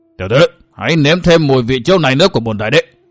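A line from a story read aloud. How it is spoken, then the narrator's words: Emperor's loud roar. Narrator (Vietnamese): tiếng quát lớn của Khổng Long Đại Đế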